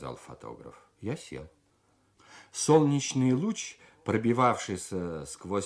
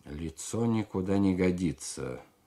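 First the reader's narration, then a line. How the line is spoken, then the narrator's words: Plain. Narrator (Russian): сказал он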